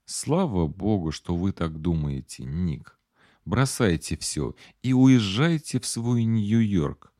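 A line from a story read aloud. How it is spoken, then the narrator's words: Gentle advice. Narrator (Russian): мягко посоветовала Клэр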